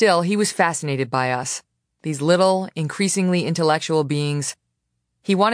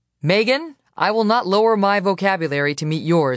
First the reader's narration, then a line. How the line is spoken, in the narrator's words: he said